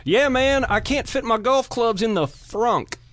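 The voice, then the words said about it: Put-on regional accent. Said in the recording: “do you pair that accent with golf and Kentucky?”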